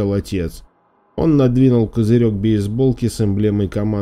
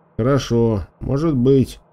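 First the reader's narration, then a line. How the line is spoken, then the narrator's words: Muttered. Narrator (Russian): пробормотал Шон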